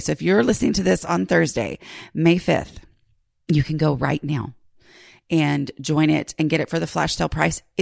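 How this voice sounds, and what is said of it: Rumbly, partly lost voice. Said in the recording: “my voice sounds weird, right? ... my voice has just gone do-do-do-do-do ... I'm a little rumbly here ... I just sound weird ... I just kind of lose my voice”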